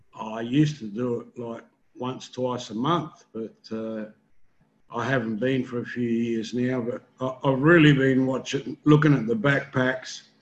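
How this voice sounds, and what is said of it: Australian accent. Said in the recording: “with that accent ... I need to work on an Australian accent”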